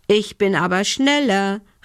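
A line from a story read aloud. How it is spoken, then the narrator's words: Calling out. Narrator (German): rief Lumbi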